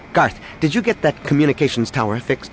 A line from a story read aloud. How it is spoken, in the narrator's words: Danny asked rather sharply